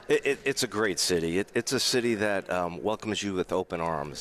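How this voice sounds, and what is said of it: New York accent. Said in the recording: “New York accent”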